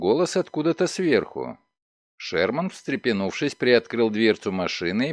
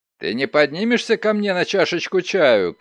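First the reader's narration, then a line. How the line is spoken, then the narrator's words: Shouting. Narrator (Russian): крикнул он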